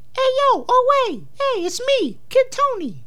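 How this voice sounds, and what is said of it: Put-on Brooklyn accent, kid character. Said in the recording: “he had the Brooklyn accent.”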